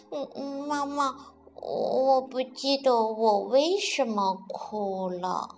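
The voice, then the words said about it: Quiet muttering voice. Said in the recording (Chinese): “小声的嘀咕道”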